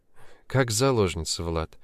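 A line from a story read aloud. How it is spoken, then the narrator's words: Sad, smiling. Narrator (Russian): грустно улыбнулась будущая теща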